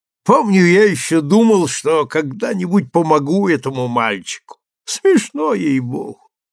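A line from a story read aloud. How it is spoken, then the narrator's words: Weak laugh. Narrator (Russian): Харленд слабо засмеялся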